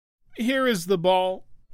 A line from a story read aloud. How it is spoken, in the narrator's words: he cried